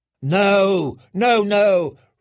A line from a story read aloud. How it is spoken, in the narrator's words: Resnik screeched